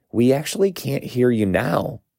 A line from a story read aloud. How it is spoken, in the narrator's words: Blanca said kindly